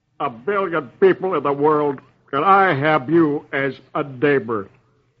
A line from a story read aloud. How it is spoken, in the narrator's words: growls